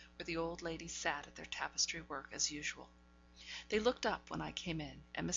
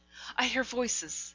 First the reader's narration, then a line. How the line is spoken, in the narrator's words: said she